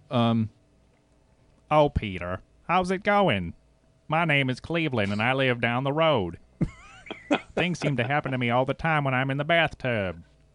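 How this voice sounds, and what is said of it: Cartoon character voice. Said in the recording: “you can do like Family Guy, can you? ... I can do a lot of the Family Guy voices.”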